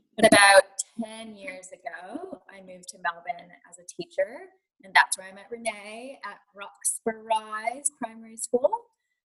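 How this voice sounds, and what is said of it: American accent, somewhat Australian-sounding. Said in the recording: “I am American, obviously, with this accent, although I will say Americans think I sound Australian”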